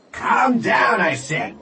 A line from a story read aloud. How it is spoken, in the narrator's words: the waitress yelled again